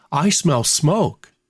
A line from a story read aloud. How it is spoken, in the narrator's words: said in an earnest tone